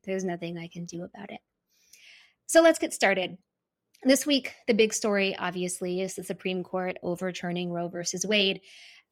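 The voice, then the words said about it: Creaky vocal fry voice. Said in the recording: “my vocal fry”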